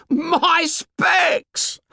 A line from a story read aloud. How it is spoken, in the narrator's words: howled Piggy